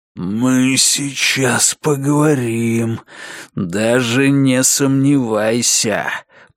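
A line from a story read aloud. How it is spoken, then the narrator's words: Growled. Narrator (Russian): прорычал он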